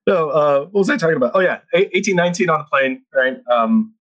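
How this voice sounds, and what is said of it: Noticeable Filipino accent in English. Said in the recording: “You still got that accent, and they're not going to lie, bro. But it comes, like when you keep going, like when we get into it, like I'm like, oh yeah, there it is.”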